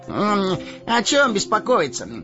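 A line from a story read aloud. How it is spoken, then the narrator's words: Carefree exclamation. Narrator (Russian): беспечно воскликнул Мэри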